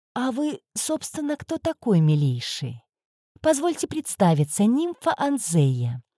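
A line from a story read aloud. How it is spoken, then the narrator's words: Innocent-voiced question. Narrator (Russian): я невинным голосом спросила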